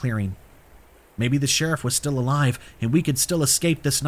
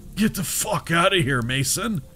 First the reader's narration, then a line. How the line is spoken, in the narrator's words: he mumbled